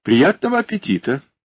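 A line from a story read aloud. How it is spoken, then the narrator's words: Cheerful. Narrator (Russian): сказала она весело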